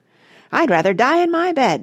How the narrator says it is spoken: shouted Grandma Josephine

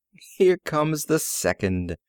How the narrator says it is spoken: the woman laughed and said

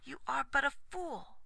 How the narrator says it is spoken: said Aglovale fiercely

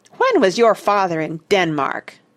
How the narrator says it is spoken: Douglas demanded hotly

